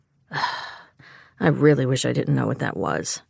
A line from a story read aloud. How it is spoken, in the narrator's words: he sighed